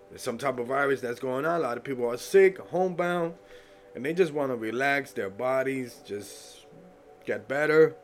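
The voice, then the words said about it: Stuffy, congested voice. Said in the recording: “I sound a little stuffy”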